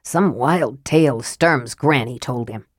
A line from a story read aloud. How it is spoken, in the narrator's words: Flint scoffed